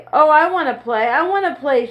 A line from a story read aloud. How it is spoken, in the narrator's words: shouted Mike, jumping up and down